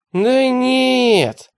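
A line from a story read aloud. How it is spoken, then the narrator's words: Groaning. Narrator (Russian): простонал Теретомба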